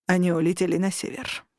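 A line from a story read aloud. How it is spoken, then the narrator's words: Gloomy mutter. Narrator (Russian): буркнул он мрачно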